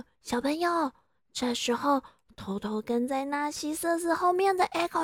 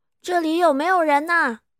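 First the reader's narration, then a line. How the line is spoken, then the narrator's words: Nervous shout. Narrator (Chinese): 迷失方向的纳西瑟斯只能紧张的大喊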